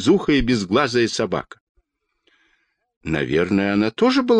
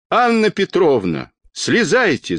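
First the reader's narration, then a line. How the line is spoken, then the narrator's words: Shout. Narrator (Russian): закричал детский доктор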